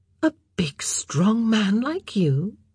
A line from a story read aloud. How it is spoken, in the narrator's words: Eloise said in a mild voice